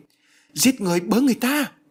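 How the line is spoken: Panicked cry. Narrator (Vietnamese): Bà hoảng hốt kêu lên

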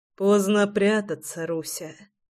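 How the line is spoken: Hoarse mumble. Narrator (Russian): хрипло пробормотал Прохор

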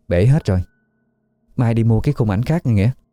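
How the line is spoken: Gentle. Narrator (Vietnamese): Cô nhẹ nhàng nói với Nghĩa

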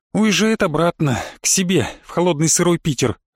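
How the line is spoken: Sighing. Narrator (Russian): вздохнула Оля

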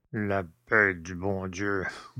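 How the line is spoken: Grumbling old man. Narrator (French): bougonna le père Jacques

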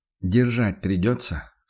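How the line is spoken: Quiet question. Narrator (Russian): спросил Курт также негромко

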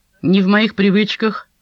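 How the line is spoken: Dismissive snort. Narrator (Russian): хмыкнул Брайан

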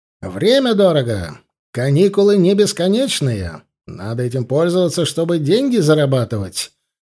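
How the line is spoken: Loud. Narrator (Russian): громко сказал я

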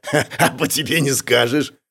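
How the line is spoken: Chuckling rescuer. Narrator (Russian): хохотнул спасатель

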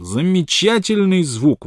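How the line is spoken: Exclaiming. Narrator (Russian): воскликнул он

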